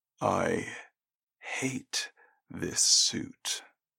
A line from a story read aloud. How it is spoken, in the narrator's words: he said quietly